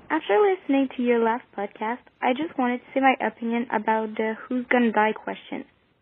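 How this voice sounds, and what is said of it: Non-native accented English. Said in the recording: “from Quebec, Canada. So sorry for my English accent.”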